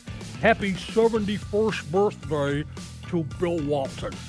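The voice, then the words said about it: Imitates another person's voice. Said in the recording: “best Bill Walton impression”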